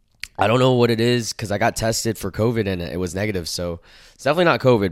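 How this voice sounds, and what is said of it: Sick, unwell-sounding voice. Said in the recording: “If you guys can't tell by my voice, I am sick right now.”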